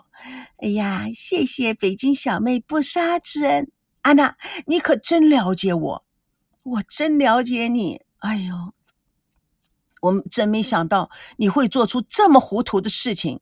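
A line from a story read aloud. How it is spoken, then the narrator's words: Laughing through tears. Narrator (Chinese): 吴梦玲破涕为笑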